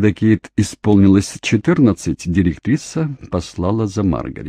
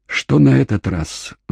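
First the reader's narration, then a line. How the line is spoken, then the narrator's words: Weary sighing mother. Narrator (Russian): вздохнула мать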